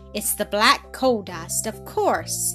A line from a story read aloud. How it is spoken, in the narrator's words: cried